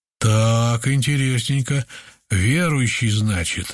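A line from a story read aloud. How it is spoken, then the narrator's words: Insinuating question. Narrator (Russian): вожак и вкрадчиво поинтересовался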